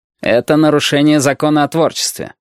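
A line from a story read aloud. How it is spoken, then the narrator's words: Cold statement. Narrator (Russian): холодно сообщил Рамон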